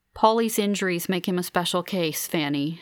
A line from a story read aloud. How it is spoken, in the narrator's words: she says